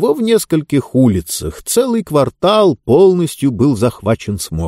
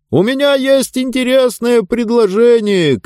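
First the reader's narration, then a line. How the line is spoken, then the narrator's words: Man shouting. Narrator (Russian): кричал человек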